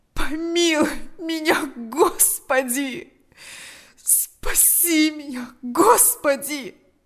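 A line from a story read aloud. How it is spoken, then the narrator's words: Groaning. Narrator (Russian): застонал он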